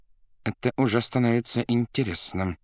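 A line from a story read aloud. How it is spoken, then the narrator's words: Through gritted teeth. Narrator (Russian): процедил сквозь зубы Варенуха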